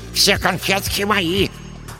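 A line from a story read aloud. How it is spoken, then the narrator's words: Breathless lisping. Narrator (Russian): С одышкой прошепелявил третий карлик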